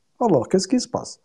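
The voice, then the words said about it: Imitated Kabyle accent. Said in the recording (French): “le barman avec ton accent kabyle”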